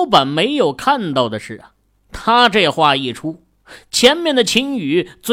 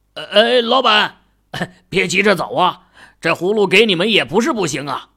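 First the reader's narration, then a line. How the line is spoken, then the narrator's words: Resolute call. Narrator (Chinese): 香烛店的老板最后一咬牙，开口喊道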